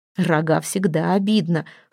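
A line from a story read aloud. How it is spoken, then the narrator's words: Chuckling reply. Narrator (Russian): хохотнул в ответ Торвард Ярл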